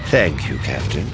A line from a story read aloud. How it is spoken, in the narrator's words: Thrawn said